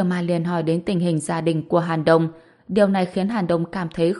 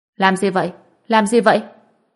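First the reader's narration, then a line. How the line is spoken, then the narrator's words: Angry, from afar. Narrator (Vietnamese): giọng nói giận dữ của Tiêu Bối Bối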